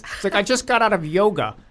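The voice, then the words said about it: Imitates another person's voice. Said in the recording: “That's a really good Scott impression.”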